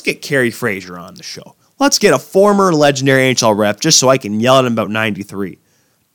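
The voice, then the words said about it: Deeper, phlegmy sore-throat voice. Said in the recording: “I got a lot of phlegm in my throat. As you can probably tell, my voice is a little deeper. I'm battling a sore throat here.”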